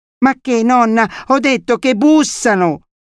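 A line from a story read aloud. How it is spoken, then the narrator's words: Child shrieking louder. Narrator (Italian): strillò più forte il bambino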